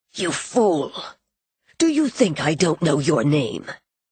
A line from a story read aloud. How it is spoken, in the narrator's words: he was too close, when he leaned forward and said harshly